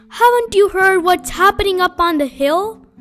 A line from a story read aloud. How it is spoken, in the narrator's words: Badger said excitedly